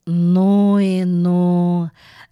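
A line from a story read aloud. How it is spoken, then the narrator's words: Reverent drawl. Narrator (Russian): благоговейно протянул швейцар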